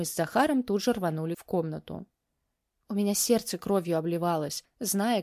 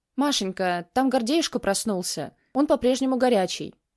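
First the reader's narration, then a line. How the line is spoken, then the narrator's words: Worried voice. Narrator (Russian): произнесла взволнованным голосом тетя Катя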